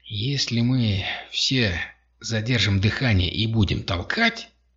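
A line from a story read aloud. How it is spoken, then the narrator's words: Muttered. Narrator (Russian): пробормотал Закатанин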